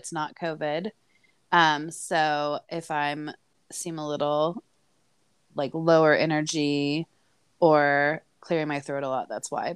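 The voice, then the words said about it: Raspy, low-energy sick voice. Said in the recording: “You sound super sexy ... my voice changes and then it's real raspy and hot ... Like Kathleen Turner”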